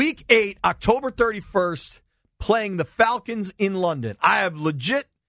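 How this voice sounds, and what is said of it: Usual voice. Nothing is said of it.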